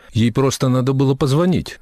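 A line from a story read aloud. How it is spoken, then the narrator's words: Muttering. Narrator (Russian): Дороти пробормотала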